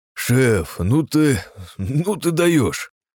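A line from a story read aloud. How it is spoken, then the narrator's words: Joyful yet bewildered exhale. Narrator (Russian): выдохнул радостно и в то же время обескураженно Костров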